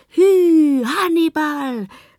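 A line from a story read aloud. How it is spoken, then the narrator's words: Called out. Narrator (German): rief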